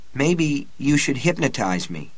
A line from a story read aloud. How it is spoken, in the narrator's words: Jake said hesitantly